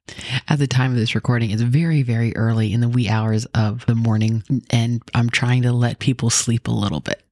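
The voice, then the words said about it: Speaking quietly. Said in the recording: “If it sounds like I'm talking kind of quietly, that's because I kind of am.”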